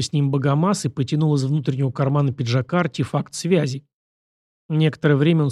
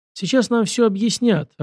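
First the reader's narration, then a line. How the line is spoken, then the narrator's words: Resigned sigh. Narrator (Russian): обреченно вздохнул Максим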